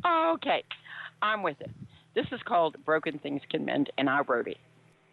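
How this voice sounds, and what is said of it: Strained, fading voice. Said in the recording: “you can tell my voice is going too”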